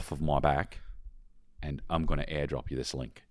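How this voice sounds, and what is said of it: Put-on Australian accent. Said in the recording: “all in the Australian accent”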